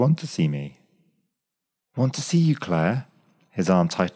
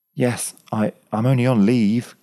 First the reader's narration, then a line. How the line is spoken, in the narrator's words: gasped Graham, heart and head caught in a wild vortex of emotion